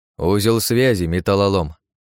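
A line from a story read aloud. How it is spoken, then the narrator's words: Grumbled. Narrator (Russian): пробурчал японец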